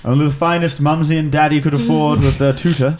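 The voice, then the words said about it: Posh aristocratic accent. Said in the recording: “you're of an aristocratic nature ... I can tell by your accent.”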